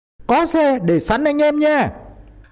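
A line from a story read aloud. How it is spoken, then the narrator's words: Shouting. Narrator (Vietnamese): Tên Hòe hét lên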